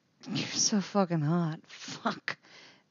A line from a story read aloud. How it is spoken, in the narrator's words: Eddie murmurs against Steve's mouth